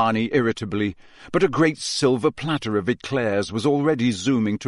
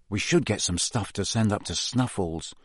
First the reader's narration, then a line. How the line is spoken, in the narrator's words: Harry muttered